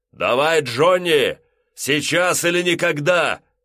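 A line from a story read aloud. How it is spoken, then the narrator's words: Shouted. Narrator (Russian): выкрикнул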